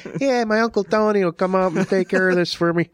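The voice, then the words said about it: Put-on Chicago accent. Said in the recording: “That's my Chicago accent.”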